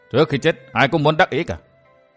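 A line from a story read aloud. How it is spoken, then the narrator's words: Cold sneering. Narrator (Vietnamese): Vân Thiên Nhạc cười nhạt nói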